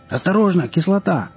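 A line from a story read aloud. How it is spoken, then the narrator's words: Bandit yelling. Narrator (Russian): завопил кто-то из бандитов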